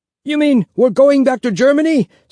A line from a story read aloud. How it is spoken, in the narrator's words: someone yelled